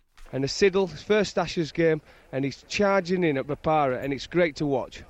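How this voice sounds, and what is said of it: Yorkshire accent. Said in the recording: “good Yorkshire accent”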